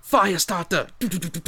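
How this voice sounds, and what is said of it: Imitates a singer's voice. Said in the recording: “my best Prodigy impression. I'm not very good at it.”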